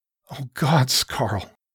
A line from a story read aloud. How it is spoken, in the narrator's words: Shara choked